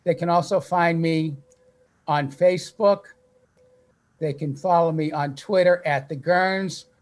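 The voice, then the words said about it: Slight Boston accent. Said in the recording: “I still have a little bit of a Boston accent”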